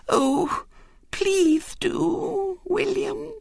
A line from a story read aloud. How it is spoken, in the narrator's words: said Violet Elizabeth in a quivering voice